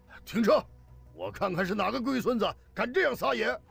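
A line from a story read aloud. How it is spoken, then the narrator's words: Shouted. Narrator (Chinese): 高俊毅大喊一声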